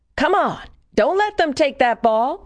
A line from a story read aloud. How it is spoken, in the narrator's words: shouts